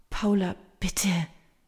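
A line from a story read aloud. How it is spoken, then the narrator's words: Soft pleading. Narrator (German): fleht leise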